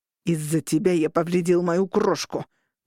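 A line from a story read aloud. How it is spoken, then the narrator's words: Said through clenched teeth. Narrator (Russian): процедил Дэйв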